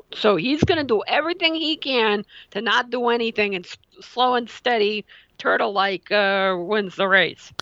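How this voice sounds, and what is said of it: Put-on mafioso New Jersey accent. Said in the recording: “you kind of adopted a mafioso accent there towards the end ... the Sopranos comes out”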